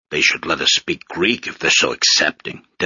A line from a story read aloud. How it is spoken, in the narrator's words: Desdemona grumbled